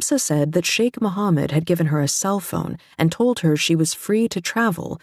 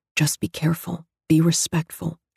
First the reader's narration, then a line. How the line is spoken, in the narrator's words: whispered